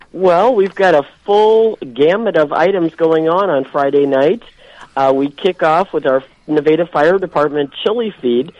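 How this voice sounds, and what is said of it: Congested, sick-sounding voice. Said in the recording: “I apologize for my voice. I have a cold.”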